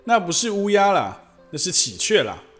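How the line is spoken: Loud girl's voice. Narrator (Chinese): 坎佩内拉身旁的那叫小香的女孩大声地说道

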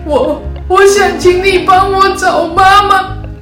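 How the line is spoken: Crying while speaking. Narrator (Chinese): 他边哭边说

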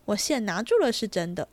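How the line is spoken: Laughing. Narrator (Chinese): 金荣笑道

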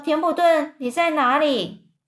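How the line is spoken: Calling out. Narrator (Chinese): 韦伯就叫啊

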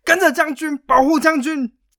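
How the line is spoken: Crowd shouting. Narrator (Chinese): 开始纷纷的大喊

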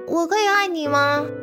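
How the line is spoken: Plain question. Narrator (Chinese): 燕子问道

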